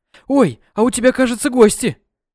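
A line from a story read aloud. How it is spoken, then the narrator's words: Exclaimed. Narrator (Russian): Воскликнула Диана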